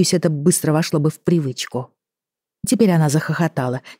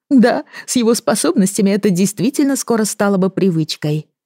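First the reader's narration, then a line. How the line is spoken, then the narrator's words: No longer laughing. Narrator (Russian): прекратив смеяться, кивнула она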